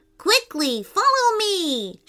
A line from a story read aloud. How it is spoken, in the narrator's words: shouted Soft Nectar